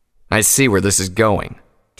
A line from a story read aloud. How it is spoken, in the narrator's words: Tirado said harshly